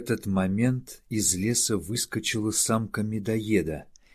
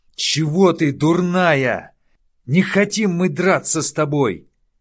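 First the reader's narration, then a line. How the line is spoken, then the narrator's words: Shouting. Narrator (Russian): кричал Лума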